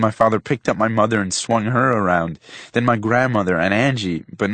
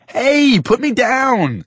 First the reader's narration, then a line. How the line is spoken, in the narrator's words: I yelled